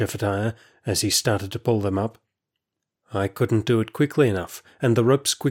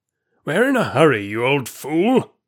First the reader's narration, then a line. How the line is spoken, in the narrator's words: said Shephatiah savagely